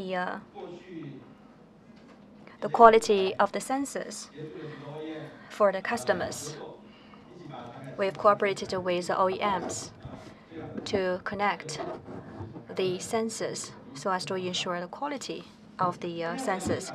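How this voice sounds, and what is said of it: Taiwanese-accented English. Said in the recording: “my Taiwan accent”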